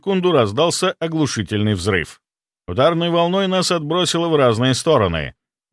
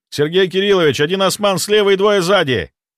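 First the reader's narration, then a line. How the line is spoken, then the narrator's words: Shout. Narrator (Russian): прокричал я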